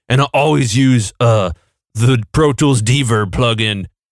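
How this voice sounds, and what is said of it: Sleep-deprived nerdy gamer voice. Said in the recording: “do you sound like a neckbeard, like gamer dude who hasn't slept in 6 weeks because he's been on a Warcraft binge and has chips on his shirt?”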